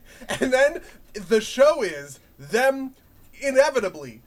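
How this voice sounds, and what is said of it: Usual voice. Nothing is said of it.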